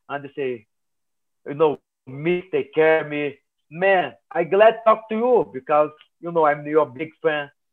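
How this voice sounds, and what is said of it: Strong non-native English accent. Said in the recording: “my accent's bad”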